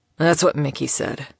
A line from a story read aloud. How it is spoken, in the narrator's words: he grunted